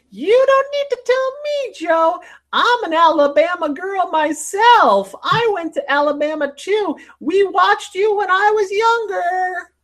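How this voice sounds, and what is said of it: Old lady's voice. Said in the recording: “she was an older lady, older than him even ... you did the voice”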